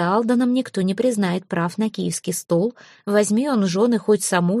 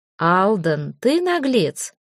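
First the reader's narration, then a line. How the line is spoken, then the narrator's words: Cheerful exclamation. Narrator (Russian): весело воскликнул Свенельдич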